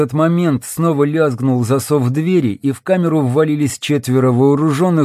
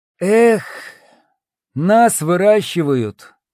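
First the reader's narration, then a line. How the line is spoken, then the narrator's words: Heavy sighing reply. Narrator (Russian): тяжело вздохнув, ответил круглый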